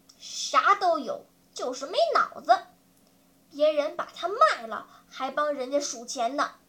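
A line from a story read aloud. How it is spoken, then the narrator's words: Grumbling. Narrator (Chinese): 妞妞撇着嘴嘟囔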